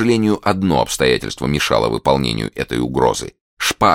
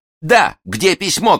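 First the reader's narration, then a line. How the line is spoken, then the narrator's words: Shouting. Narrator (Russian): кричал Д'Артаньян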